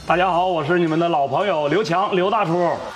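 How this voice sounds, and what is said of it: Northeastern Chinese accent. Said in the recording (Chinese): “这听着口音，比较有这种黑土地的气息在里”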